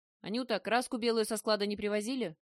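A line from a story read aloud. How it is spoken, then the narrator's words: Loud bark. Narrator (Russian): гаркнула Марина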